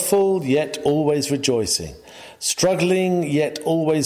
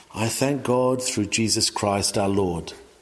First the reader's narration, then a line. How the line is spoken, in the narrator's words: he may sing